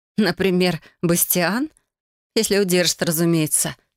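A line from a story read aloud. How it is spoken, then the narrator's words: Wry snort. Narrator (Russian): хмыкнула я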